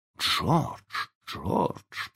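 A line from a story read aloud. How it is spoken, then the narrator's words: Whisper. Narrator (Russian): прошептала миссис Дарлинг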